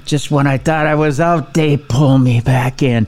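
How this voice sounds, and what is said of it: Bad Al Pacino impression. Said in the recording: “terrible Pacino impression”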